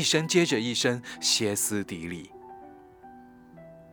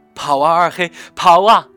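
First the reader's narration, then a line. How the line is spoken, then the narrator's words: Deafening shout. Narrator (Chinese): 震耳欲聋的喊声响彻了整个草原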